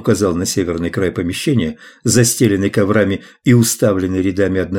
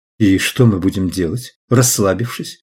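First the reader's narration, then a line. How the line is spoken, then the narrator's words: Plain. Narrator (Russian): спросила Деннис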